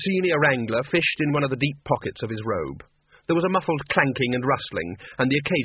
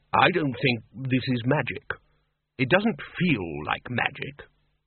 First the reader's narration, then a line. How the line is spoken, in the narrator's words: said the lecturer in recent runes, trying to keep his voice calm and relaxed